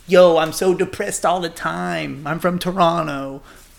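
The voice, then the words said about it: Imitates another person's voice. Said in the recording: “That was a pretty good impression”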